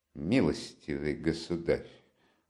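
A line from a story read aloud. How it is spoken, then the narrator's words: Angry flustered shout. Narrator (Russian): злобно и раздражительно вскричал Лужин, весь вспыхнув и смешавшись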